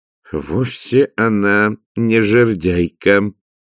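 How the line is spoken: Gloomy. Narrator (Russian): сказал Влад мрачно

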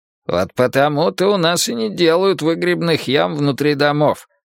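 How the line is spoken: Grumbling. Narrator (Russian): проворчал Грюнальди

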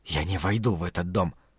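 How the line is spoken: Hissed. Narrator (Russian): прошипел Лео

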